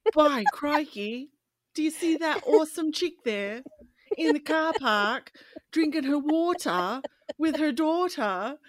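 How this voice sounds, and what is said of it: Attempted Australian accent, sounding British. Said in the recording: “I'm trying to do it with an Australian accent ... Oh, no, I sound British there”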